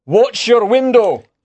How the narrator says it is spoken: he shouted

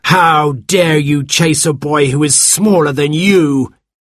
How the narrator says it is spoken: boomed

